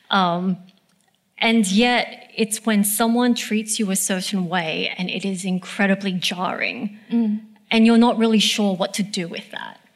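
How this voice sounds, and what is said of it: Australian accent. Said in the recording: “I know that I'm Australian. I know that this is where I'm from. This is the accent I speak with.”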